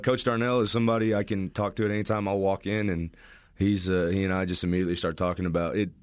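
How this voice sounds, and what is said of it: Texan accent. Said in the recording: “where that accent's not like Pueblo, is it? ... What part of Texas are you from?”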